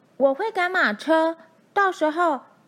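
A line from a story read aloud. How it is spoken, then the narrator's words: Shouting. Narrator (Chinese): 大拇指喊道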